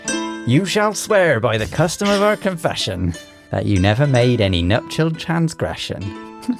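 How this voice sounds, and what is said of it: Put-on West Country accent. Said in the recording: “Which accent would you like? ... I want West Country, please.”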